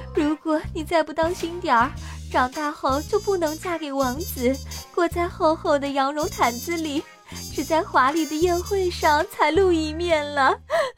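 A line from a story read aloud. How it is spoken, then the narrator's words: Mother crying. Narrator (Chinese): 妈妈哭着说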